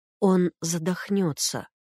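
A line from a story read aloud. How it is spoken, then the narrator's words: Quiet. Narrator (Russian): тихо сказал Белогуров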